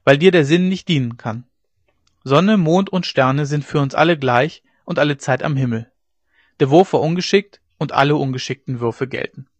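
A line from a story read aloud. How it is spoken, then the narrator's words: Calling out. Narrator (German): rief der andere Kretler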